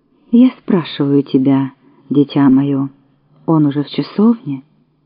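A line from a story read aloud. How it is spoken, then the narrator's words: Soft, old man's voice. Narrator (Russian): старик улыбнулся страшной улыбкой и мягко сказал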